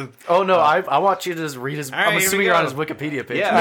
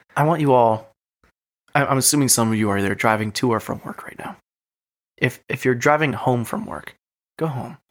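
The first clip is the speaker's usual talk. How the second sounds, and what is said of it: Sultry, seductive voice. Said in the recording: “You're getting all sexy with this. I am getting all sexy. ... Sexy voice.”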